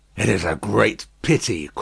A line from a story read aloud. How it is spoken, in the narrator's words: croaked Jacques III, dubiously